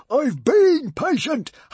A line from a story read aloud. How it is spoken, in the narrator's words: howled Norbert